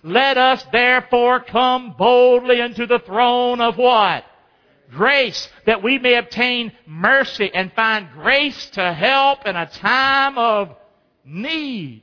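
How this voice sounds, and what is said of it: Excited screaming preaching voice. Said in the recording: “I'm screaming today, ain't I? ... he's screaming ... I got excited about this.”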